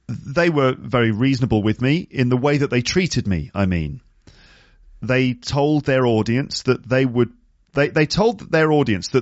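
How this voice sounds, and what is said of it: British accent. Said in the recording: “my British accent ... I sound intelligent and that I sound articulate”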